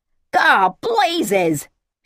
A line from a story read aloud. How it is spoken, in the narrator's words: she shouted